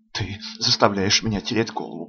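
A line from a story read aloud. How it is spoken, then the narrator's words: Muttered. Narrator (Russian): бормочу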